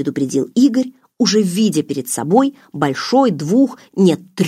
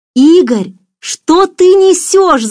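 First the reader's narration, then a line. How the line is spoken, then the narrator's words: Shouted after speechlessness. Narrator (Russian): закричала Даша, обретя дар речи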